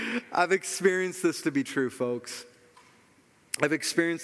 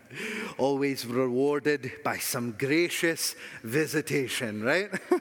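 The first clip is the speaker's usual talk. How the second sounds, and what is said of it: Put-on Scottish accent. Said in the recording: “I almost wanted to read that in a Scottish accent”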